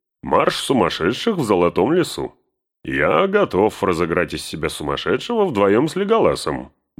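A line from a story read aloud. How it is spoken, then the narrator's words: Cheerful. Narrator (Russian): добавил он весело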